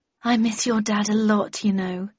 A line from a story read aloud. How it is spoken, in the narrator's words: said wistfully